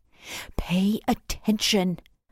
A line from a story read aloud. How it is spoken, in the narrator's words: Mum hisses beside me